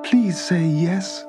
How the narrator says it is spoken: pleaded the visitor

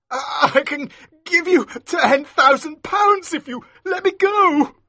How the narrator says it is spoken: said, his voice shaking

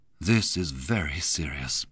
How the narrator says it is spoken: he murmured

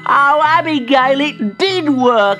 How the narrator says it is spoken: he laughed

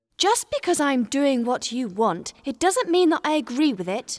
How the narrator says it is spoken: said angrily

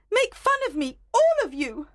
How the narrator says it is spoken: Helena shouted

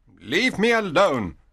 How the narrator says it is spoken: Antonio said roughly

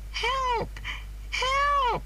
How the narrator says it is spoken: she cried

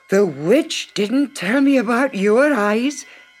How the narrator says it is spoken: gasped the soldier as he struggled

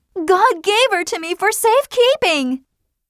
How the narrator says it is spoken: screamed Hester Prynne

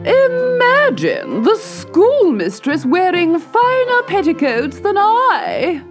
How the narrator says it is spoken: wailed Lady Black Pebble

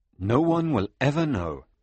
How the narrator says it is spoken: Fritz said

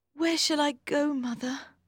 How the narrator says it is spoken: asked Maggie sadly

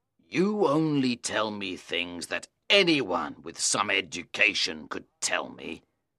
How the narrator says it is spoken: he complained bitterly

